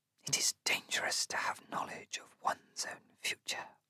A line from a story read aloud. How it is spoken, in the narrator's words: the Demajah whispers